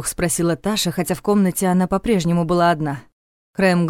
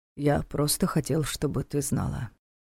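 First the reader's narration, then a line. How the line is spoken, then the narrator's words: Quiet. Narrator (Russian): тихо сообщил он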